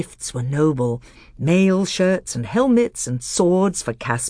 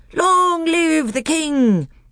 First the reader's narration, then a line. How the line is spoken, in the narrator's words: they all cried